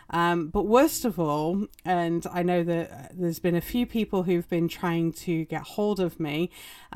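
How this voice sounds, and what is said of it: Recovering from lost voice. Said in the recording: “my voice sounds a little funny. I lost my voice ... still kind of recovering”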